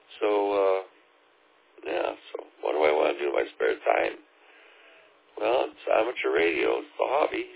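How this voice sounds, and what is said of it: Hoarse, fading voice. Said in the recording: “I'm kind of losing my voice here”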